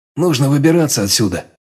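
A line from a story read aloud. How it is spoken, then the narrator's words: Hoarse speech. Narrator (Russian): хрипло сказал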